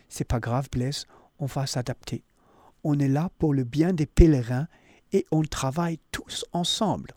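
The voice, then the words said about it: Imitated slight foreign accent. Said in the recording (French): “Il a un petit accent délicieux.”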